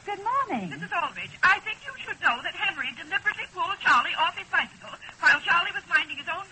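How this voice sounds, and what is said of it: Very fast, hard-to-follow speech. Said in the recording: “you're talking so fast I can't entirely understand you”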